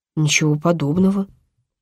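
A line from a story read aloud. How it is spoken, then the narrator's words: Very gentle. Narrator (Russian): очень мягко сказал Грегори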